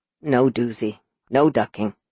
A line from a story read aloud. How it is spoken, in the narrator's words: Uncle Sid solemnly, softly muttered